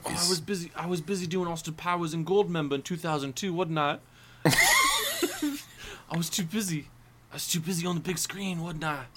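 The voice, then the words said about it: Inconsistent imitation of another person's voice. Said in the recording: “This accent is. ... It's all over the place.”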